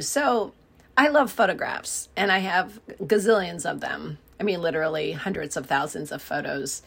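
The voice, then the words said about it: Scratchy, partly lost voice. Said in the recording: “I've got a bit of a lost voice today ... my voice is a little scratchy, probably not the most soothing to listen to”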